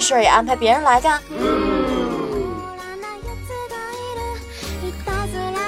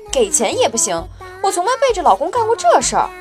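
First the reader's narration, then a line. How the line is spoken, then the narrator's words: Angry. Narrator (Chinese): 夫人怒道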